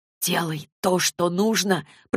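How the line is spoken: Whisper. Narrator (Russian): прошептал

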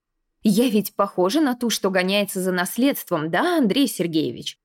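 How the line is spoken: Increasingly heated. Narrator (Russian): Надя распаляясь все сильнее

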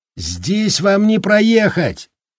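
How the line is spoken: Yelling over wind. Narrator (Russian): заорал он Холлорану, стараясь перекричать ветер

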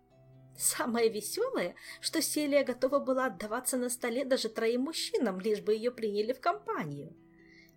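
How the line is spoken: Giggling. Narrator (Russian): хихикала Анна

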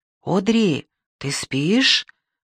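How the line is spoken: Whispered. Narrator (Russian): прошептала я

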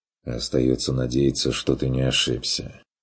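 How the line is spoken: Sighing. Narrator (Russian): вздохнул фон Вегерхоф

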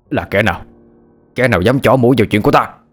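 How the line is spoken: Startled angry shout. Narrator (Vietnamese): Lão Phúc cả kinh, miệng quát lên

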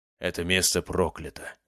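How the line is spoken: Hunter's mutter. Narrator (Russian): пробормотал один из охотников

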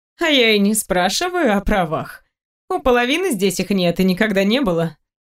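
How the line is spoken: Laughing woman. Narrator (Russian): рассмеялась она

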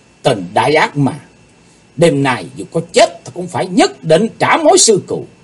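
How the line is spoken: Hissed through clenched teeth. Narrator (Vietnamese): Chàng rít thầm qua kẻ răng

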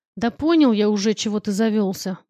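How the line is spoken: Grumbling mumble. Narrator (Russian): буркнул стримыш

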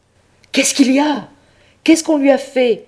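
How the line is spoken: Good pope crying out. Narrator (French): s'écria le bon pape

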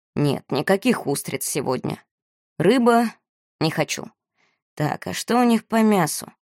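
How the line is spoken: Grumbling. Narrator (Russian): Моро, как обычно, ворчал

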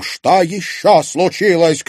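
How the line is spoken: Woman shouting. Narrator (Russian): крикнула она

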